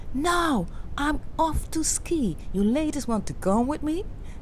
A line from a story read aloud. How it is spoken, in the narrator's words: The king cried